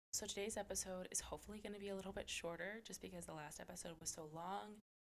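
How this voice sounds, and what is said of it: Slightly off, under-the-weather voice. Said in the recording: “my voice sounds a little wonky”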